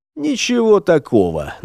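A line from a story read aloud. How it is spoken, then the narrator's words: Deliberately calm mutter. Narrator (Russian): нарочито спокойно пробурчал следопыт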